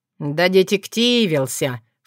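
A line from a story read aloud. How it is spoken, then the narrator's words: Snorting. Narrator (Russian): фыркнул Крамиш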